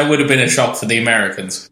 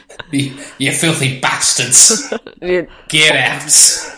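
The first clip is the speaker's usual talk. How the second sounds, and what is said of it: Put-on northern English accent. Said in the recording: “Do you think the spirit had a northern accent?”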